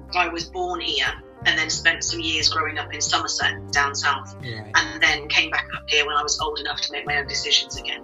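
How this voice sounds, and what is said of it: Mixed Liverpool and southern English accent. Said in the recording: “my accent doesn't sound very Scouse ... I have a mixed accent. So every now and then a bit of Scouse will come out.”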